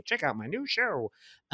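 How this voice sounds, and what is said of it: Imitates a character's voice, weak attempt. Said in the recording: “That's not my best Zo impression.”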